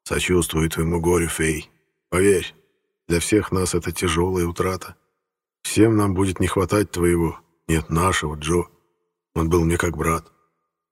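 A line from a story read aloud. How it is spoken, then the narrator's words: Whispered in ear. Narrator (Russian): прошептав ей на ухо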